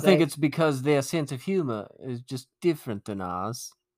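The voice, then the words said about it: Mixed, unconvincing put-on British accent. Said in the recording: “That was a great British accent. ... Was it really British? ... No, I don't know what it was. It's like a hybrid of every accent you do. Or try to do.”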